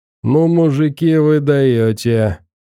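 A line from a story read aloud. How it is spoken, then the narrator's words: Drunken man's voice. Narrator (Russian): обратился пьяным голосом к фрунзенцам какой-то мужик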